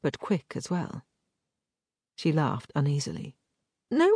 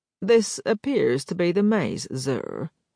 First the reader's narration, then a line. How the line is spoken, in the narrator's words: said Ganstridge in his peculiar drawl